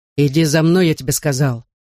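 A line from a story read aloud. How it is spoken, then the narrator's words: Growled. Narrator (Russian): прорычал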